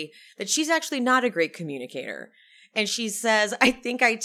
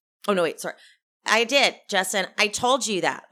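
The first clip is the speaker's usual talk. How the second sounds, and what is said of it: Flat robotic voice. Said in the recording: “she's that robot voice.”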